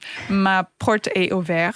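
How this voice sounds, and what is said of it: Deliberately bad French accent. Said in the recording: “it's going to be a terrible French accent”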